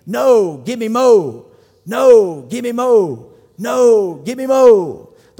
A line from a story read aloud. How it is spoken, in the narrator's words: they yell back, they bellow out as a team